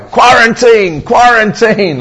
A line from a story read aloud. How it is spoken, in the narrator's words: he said, he shouted out